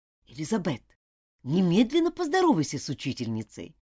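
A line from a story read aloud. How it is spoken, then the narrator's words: Strict, embarrassed command. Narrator (Russian): залилась краской стыда и строго приказала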